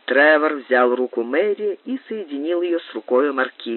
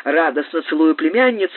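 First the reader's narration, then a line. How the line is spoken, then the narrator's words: Exclamation. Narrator (Russian): воскликнула леди Кэмпбелл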